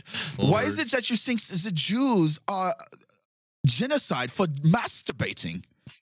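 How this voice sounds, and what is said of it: Poor put-on German accent. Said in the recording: “That's not a very good German accent ... we're horrible at accents”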